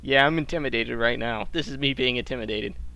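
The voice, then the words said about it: Sarcastic, deadpan delivery. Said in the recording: “I'm being sarcastic.”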